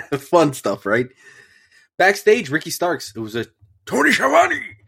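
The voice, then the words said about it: Congested, partly lost voice. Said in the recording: “my nose is filled, so my voice is a little ... Little gone”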